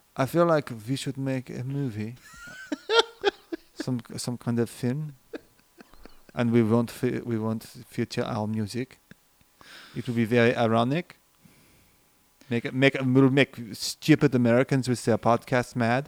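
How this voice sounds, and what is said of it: Put-on German accent. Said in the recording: “maybe that's German... I don't have time for European accents... It's German, but... you nailed it”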